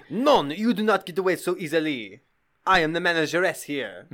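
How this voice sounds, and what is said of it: Sinister French woman character voice. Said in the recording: “a sinister French woman who's like the proprietor”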